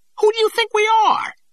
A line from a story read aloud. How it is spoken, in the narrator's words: The hunchback's voice rose to an indignant squeak